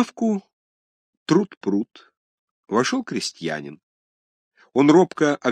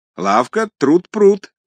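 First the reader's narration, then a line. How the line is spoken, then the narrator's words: Stern. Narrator (Russian): строго сказал хозяин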